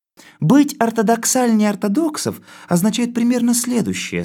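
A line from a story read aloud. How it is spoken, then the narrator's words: Plain. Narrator (Russian): сказала коза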